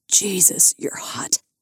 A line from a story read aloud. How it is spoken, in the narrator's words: Lars gasped